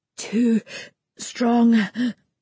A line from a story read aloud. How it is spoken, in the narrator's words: I gasp